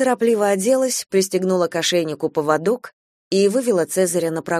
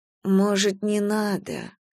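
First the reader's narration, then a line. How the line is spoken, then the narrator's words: Drawling. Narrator (Russian): протянула Надежда Николаевна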